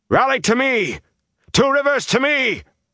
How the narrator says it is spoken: 2 Rivers, someone shouted frantically, off through the damp woods

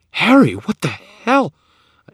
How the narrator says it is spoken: struggled against the wire, gasping

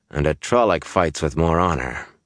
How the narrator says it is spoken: Gaul said in a flat voice

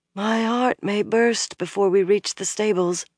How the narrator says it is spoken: Elaine murmured

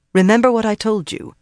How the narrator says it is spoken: told firmly

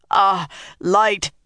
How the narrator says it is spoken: he panted

